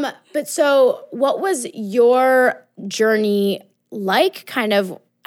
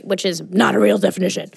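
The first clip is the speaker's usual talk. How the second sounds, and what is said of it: Put-on defiant voice, slightly phlegmy. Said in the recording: “what was that voice? ... That's my fuck the patriarchy voice. ... And like a little phlegm.”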